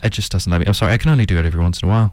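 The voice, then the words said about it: Put-on monotone voice stuck at one pitch. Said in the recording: “my voice is stuck at this pitch, unfortunately. It doesn't change... You do have a bit of a monotone voice... the accent that I'm putting on right now”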